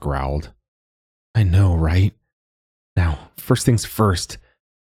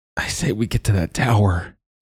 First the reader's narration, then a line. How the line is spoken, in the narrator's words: he grunted